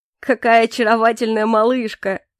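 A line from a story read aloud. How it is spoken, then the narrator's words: Speaking through laughter. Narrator (Russian): сквозь смех произнес Калипсо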